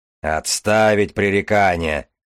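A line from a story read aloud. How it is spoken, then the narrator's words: Strange metallic voice. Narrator (Russian): сказал Железовский незнакомым металлическим голосом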